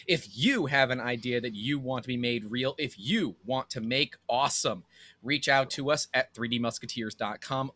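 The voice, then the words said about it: Radio announcer voice. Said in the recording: “I'm really actually feeling your radio voice right now.”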